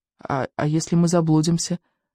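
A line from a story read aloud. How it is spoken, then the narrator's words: Timid question. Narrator (Russian): робко поинтересовался Рыбьенок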